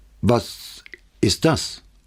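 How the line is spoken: Frightened stammer. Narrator (German): stammelte Rossi, der nicht hinzusehen wagte

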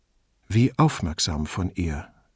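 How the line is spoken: Quiet remark. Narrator (German): bemerkte Brunetti leise

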